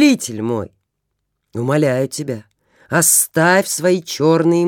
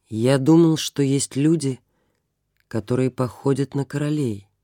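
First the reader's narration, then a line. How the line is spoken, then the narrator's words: Plain. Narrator (Russian): ответил он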